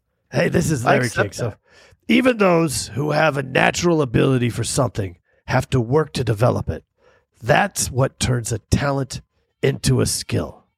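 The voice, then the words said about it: Imitates another person's voice. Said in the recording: “that a good impression ... That's pretty good.”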